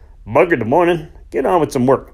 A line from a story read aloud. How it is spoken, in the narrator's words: grunted old John in reply